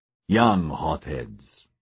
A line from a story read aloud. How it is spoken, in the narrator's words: he growled